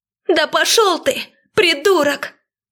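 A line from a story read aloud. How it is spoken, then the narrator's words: Shouting at full strength. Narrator (Russian): крикнула она, что есть сил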